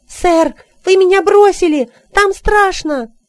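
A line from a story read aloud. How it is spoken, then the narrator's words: Shouting. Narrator (Russian): закричал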